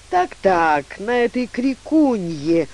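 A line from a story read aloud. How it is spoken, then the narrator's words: Mournful drawl. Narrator (Russian): горестно протянул большая борзая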